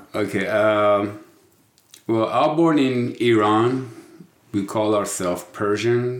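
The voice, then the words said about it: Persian-accented English. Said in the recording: “you may be able to pick up an accent there ... tell them about your accent. Where are you from?”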